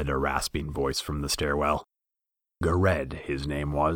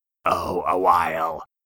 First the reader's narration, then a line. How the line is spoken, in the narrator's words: croaked the squat figure